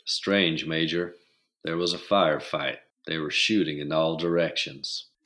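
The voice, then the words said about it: Put-on southern drawl. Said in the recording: “How's your southern drawl? ... I can make that work.”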